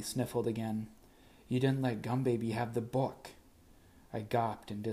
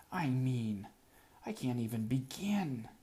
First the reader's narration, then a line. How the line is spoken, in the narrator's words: I spluttered in frustration